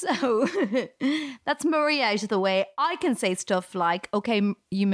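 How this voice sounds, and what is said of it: Usual voice. Nothing is said of it.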